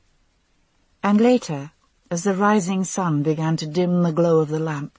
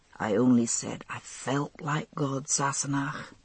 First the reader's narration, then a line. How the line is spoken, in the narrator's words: he murmured